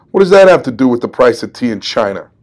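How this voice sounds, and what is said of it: Weak put-on New York accent. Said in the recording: “Let me try that again with his New York accent ... that was my weak attempt at a New York accent.”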